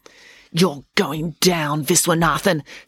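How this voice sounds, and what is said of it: Menacing threatening voice. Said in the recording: “in her most menacing voice”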